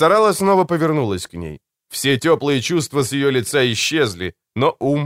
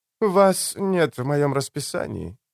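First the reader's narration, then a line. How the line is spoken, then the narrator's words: Soft voice. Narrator (Russian): мягко сказала Драмер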